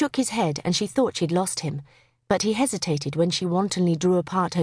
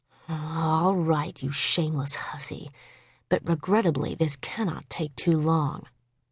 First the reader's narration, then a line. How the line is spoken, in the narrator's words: murmured